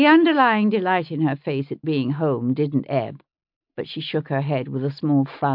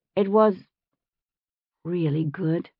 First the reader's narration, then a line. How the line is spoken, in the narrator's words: she said softly